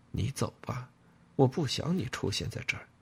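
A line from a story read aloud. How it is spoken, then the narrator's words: Quiet. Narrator (Chinese): 他小声说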